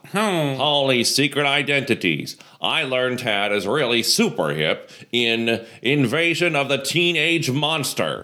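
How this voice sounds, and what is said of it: Good imitation of another person's voice. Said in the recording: “I'm just going to do Phyllis Diller. ... That's actually a really good imitation of Phyllis”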